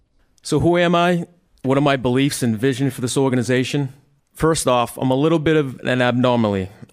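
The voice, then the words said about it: Boston accent. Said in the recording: “I'm a Northeast guy with a funny Boston accent”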